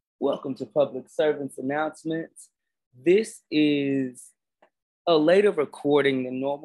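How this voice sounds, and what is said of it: Sleepy, low-energy late-night voice. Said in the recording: “my voice sounds a little bit different, because this is go to sleep voice or wake up voice, not middle of the day excitement voice”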